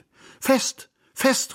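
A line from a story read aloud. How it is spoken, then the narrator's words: Excited call. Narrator (German): rief ich aufgeregt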